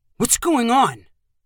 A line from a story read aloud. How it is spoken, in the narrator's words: Carson asked in a panicked voice